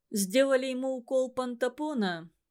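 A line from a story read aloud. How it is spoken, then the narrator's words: Plain. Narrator (Russian): сказал Хижняк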